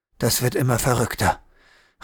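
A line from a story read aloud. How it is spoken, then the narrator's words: Murmured. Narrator (German): raunte Riedel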